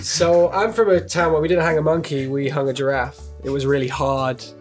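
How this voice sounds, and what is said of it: Mixed northern and southern English accent. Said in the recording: “I have this kind of mixed accent where everyone in the north thinks I'm southern, everyone in the south thinks I'm northern”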